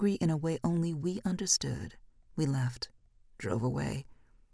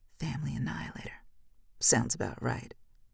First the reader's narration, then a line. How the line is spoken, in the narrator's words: Maria mumbled